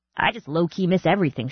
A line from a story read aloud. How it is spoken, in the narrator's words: she said